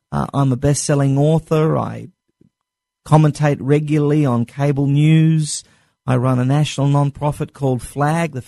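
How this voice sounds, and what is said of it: Clearly non-American accent. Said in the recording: “as all of you can very clearly tell from my accent, I was not born in the United States of America”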